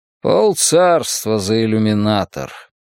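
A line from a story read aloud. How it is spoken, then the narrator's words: Grumbling. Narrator (Russian): пробурчал Лихенд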